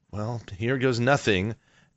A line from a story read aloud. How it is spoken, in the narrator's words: Elias basically sort of mutters under his breath